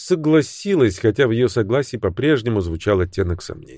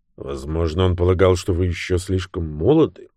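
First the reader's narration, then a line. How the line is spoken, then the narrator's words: Gentle question. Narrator (Russian): мягко спросил Люк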